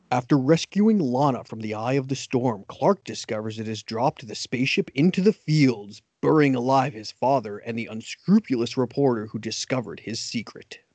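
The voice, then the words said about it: Dramatic announcer voice. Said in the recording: “can do your announcer voice as well as you do. I doubt I can, though.”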